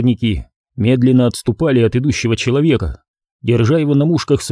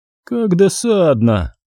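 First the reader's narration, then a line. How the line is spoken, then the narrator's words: Bored drawl. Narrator (Russian): скучающим голосом протянула Эксел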